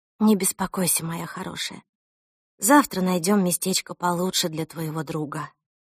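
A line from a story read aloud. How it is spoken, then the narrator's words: Sleepy mumble. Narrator (Russian): пробормотала мама сквозь сон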